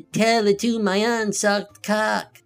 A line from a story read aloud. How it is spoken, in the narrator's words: cackled